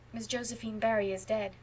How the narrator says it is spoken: said Anne in a low tone

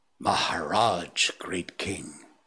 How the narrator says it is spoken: he said at last in a husky whisper

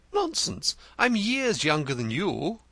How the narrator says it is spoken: he gasped

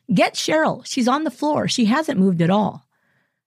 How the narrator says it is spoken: the woman called out

